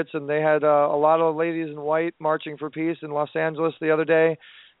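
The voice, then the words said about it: Strained, worn-out voice. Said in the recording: “I apologize for my voice. I've been speaking a lot”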